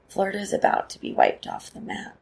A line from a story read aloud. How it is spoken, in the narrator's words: whispers